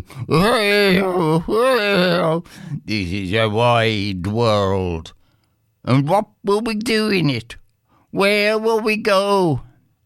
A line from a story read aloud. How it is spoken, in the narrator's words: muttered Bill Doody